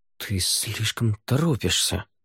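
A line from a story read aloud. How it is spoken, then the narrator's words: Muttered. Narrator (Russian): пробормотал Савьер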